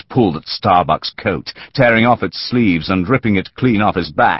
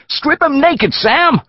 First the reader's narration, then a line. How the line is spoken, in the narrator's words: a woman screamed excitedly